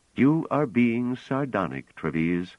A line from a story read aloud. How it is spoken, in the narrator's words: said coolly